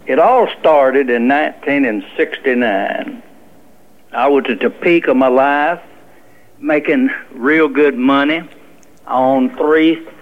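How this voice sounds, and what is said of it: Noticeable regional accent. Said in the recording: “I can hear your accent.”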